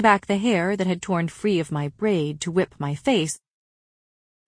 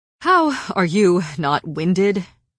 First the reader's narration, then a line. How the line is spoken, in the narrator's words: He panted